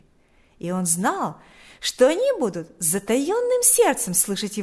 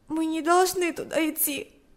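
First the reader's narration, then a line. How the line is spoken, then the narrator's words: Said with a sob. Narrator (Russian): сказала она, всхлипнув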